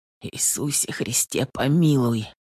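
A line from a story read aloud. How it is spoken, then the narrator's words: Whispered prayer. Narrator (Russian): Так шептал он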